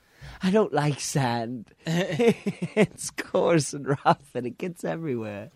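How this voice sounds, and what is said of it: Movie character impression with put-on accent. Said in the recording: “You know he doesn't have an accent, right? ... I throw an accent on him ... I always throw an accent him when I do that impression.”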